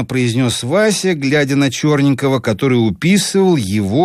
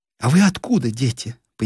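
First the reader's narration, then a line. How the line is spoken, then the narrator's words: Curious question. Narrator (Russian): поинтересовалась Нина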